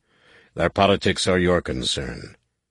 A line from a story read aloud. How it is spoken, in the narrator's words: Savonglaw growled